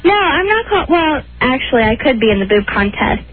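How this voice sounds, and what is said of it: High little girl voice. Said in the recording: “doesn't this sound though like a little voice. ... Little girl voice.”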